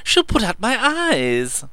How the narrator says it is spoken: wailed Meadows

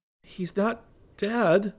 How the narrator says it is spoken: Rick said shakily

